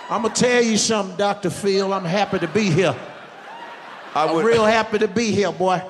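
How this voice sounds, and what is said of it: Steve Harvey impression. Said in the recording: “You can do an impression of one of my best friends in the business, Steve Harvey.”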